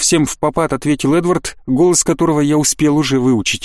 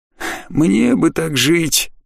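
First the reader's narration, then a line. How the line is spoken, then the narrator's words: Pointedly envious sigh. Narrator (Russian): подчеркнуто завистливо вздохнул невидимый кто-то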